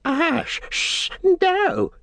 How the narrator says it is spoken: cried

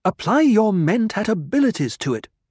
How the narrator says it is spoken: she snapped

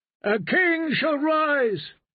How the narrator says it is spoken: the drowned men cried

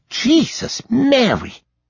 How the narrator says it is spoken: Liesel wheezed

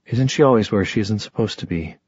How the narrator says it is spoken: Magnus said in a reasonable voice

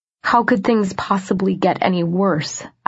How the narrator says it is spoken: I asked

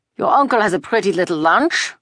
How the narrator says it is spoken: the soldier said scornfully

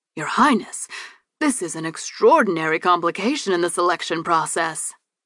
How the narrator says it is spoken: Gavril gasped

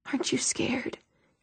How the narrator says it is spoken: he whispered

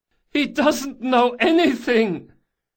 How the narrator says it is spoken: The last prisoner, as yet untouched, hollered at the top of his voice

